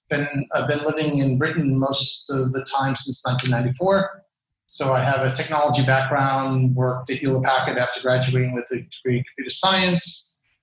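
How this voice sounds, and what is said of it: American accent. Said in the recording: “American, if you can tell by the accent.”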